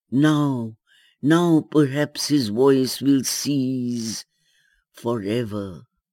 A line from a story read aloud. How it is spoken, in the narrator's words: love in her bosom, hurt with the jagged edges of anguish, moaned at every step with pain, crying